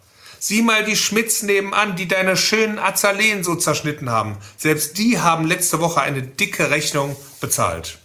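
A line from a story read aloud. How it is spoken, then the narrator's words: Almost pleading call. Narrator (German): Beinahe flehend rief er in das dunkle Schlafzimmer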